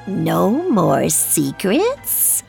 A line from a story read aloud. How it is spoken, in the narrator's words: a thin voice hissed